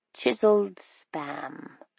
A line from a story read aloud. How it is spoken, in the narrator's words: Miss Matheson said, sort of mumbling it to herself